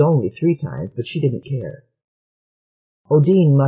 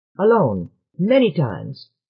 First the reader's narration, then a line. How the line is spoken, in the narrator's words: snapped Jua